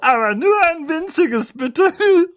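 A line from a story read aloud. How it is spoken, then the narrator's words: Giggling. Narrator (German): kicherte sie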